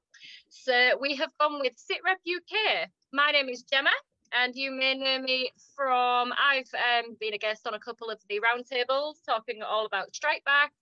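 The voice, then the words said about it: British accent. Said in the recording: “We were going to call it Brit Rep, but with this accent, it was never going to happen because I can't get it out.”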